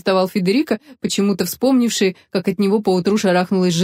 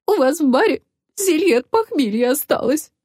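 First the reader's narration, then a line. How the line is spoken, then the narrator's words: Sobbing. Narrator (Russian): всхлипнула Роза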